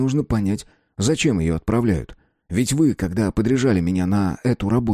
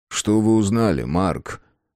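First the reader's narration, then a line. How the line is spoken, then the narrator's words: Even-toned question. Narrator (Russian): ровным тоном спросил Китин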